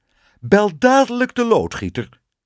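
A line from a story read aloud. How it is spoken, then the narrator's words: Queen calling out. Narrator (Dutch): riep de koningin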